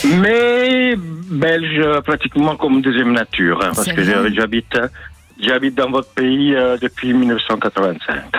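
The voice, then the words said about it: Slight Italian accent in French. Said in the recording (French): “j'entends quand même un petit accent dans votre voix qui nous donne des envies de plus loin ... je suis italien”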